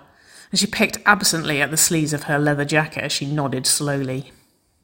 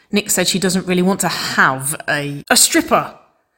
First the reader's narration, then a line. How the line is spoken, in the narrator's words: Nicole yelped